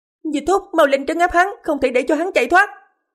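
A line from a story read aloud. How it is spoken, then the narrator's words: Shrill scream. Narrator (Vietnamese): Ả thị nữ của Phong Hoàng thét chói tai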